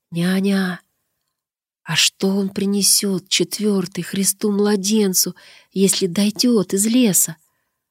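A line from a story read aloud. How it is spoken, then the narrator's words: Quiet, muffled question. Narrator (Russian): Прижавшись к ней лицом, тихо спрашивал няню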